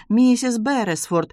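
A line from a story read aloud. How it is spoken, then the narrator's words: Exclaiming. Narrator (Russian): воскликнула мисс Маллинс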